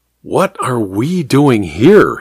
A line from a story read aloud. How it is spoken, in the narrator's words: he murmured